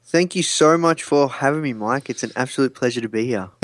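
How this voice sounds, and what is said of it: Australian accent. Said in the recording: “where that accent is from ... I'm from Melbourne, Australia.”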